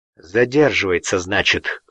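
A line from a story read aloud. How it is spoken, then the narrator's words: Wry grunt. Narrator (Russian): хмыкнул Кричко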